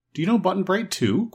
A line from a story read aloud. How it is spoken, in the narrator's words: questioned Dorothy eagerly